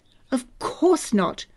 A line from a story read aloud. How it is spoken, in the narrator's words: the Major said sharply